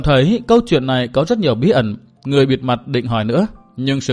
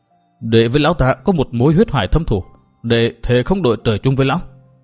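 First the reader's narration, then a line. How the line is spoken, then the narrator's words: Hateful, through clenched teeth. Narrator (Vietnamese): Trợn đôi mắt người sắc quang, Tư Mã Minh đáp qua kẽ răng nghiến chặt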